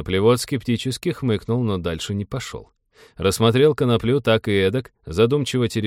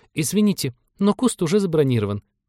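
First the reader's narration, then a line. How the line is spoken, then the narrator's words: Frightened rapid chatter. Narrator (Russian): испуганно затараторила она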